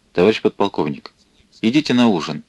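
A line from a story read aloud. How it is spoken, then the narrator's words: Quiet. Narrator (Russian): тихо сказал чей-то голос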